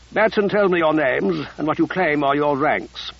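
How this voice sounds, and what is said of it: Clipped old-fashioned British officer accent. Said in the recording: “His accent was clipped, oddly out of date, like the British officer class in a World War II movie.”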